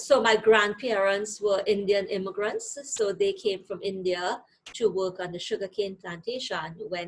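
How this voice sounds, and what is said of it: Trinidadian accent. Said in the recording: “You have a trace of Trinidadian accent. ... That's why the strong accent is still there.”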